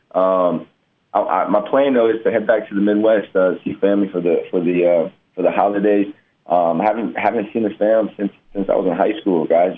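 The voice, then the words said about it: Slightly hoarse, worn-out voice. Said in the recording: “as you can hear, my voice is still a little going”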